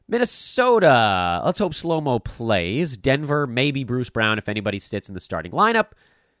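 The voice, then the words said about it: Tired voice. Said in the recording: “my voice is tired”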